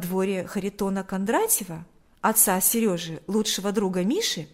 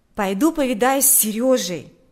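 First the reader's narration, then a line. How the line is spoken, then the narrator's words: Exclaiming. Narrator (Russian): воскликнул Миша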